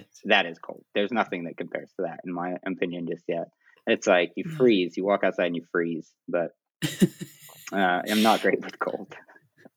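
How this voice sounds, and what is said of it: American accent. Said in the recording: “a fellow Brit ... hopefully I'll convert his American accent back to British”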